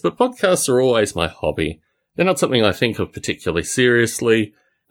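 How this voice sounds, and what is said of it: Mixed Australian-British accent, slightly American. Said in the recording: “My accent is not typically Australian. It's not typically British. It now has certain kind of American flows through it.”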